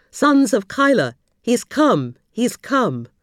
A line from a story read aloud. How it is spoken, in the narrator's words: one of the Jews called out to the Ansar